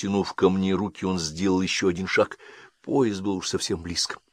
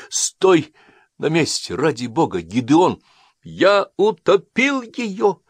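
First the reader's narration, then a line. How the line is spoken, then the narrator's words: Shouting, choking with sobs. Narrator (Russian): выкрикнул я, захлебываясь от рыданий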